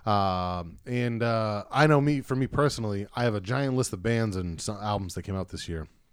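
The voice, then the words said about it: Worn voice lacking usual boom. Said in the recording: “my voice is a little bit ... getting a little raspy ... Not raspy, but it's like I don't have my like boom that I normally would have”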